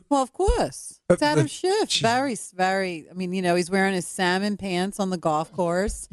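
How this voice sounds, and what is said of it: Mixed Philadelphia and New York accent. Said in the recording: “your Philly accent ... I would think it was a New York accent ... It is a New York accent. Basically, my accent is, it's a bastardized version of both ... this Philly, New York”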